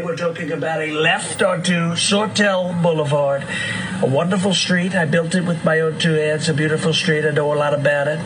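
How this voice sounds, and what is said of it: Donald Trump impression. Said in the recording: “This guy is an impersonator. He's got Trump down to a T”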